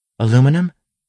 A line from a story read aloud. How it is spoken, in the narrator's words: asked eagerly